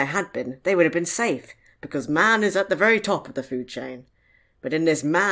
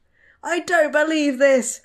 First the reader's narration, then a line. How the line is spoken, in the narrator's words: Frank shouted